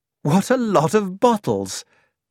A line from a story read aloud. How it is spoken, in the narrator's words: I exclaimed